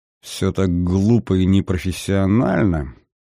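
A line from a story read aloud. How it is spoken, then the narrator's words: Displeased mutter. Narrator (Russian): недовольно пробурчал Вальтер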